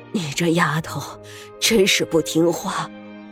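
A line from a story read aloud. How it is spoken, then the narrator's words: Breathless old woman. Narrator (Chinese): 奶奶喘息的开口道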